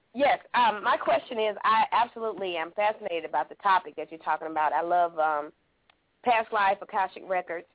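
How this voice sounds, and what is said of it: Speaker with a noticeable accent. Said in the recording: “I love your accent”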